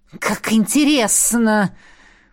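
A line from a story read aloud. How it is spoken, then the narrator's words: Hissed. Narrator (Russian): прошипела наставница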